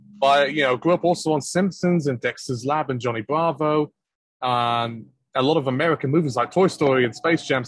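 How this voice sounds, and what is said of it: British accent. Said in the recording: “make myself appear more British than I actually am ... is that your normal accent that you're speaking with? ... Yep, that's the way I talk. I'm not faking it.”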